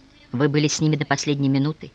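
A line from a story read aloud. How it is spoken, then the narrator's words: Quiet question. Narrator (Russian): тихо спросил Николай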